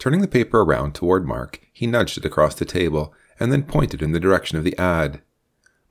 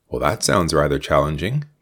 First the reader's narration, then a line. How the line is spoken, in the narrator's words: Mark commented in a guarded tone